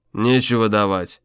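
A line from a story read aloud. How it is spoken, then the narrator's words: Calm reply. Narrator (Russian): спокойно ответил Тамик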